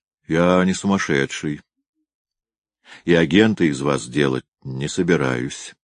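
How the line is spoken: Calm continuation. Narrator (Russian): спокойно продолжал Гуров

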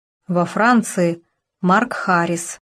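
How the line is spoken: Hesitant, quiet. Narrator (Russian): поколебалась и тихо сказала

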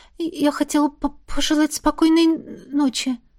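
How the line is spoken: Awkward stammering reply. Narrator (Russian): неуклюже ответила ему, запинаясь

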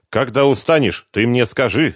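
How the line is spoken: Stern offer. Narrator (Russian): строгим тоном предложил Талгат

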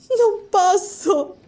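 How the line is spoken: Moaning. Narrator (Italian): gemette lei

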